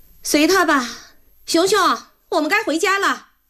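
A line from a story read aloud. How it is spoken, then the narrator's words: Shouting. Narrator (Chinese): 许梦欣冲着外甥女的房间喊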